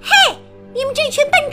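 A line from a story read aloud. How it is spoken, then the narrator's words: Shouting. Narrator (Chinese): 梅根喊道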